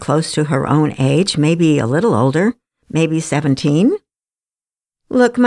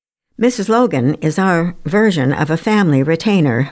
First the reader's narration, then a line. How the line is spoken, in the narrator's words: Beth explained with a little laugh